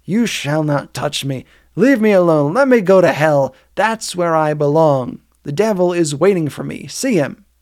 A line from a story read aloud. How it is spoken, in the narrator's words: exclaimed hoarsely